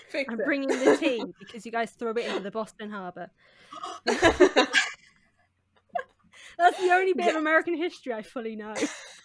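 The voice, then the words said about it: English accent. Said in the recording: “is from England... So she has an English accent... This is my real accent.”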